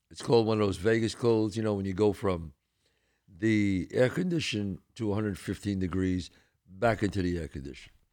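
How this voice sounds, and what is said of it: Voice sounds like a cold. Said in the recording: “I have a cold, so please bear with me, folks.”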